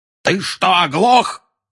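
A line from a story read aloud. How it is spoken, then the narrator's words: Yelling. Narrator (Russian): заорал дядя Вернон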